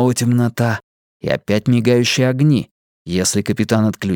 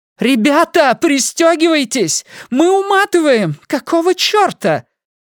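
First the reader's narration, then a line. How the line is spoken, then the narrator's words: Shouting. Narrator (Russian): Открытый канал связи с рубкой, где кричала Сьюзен Джеймс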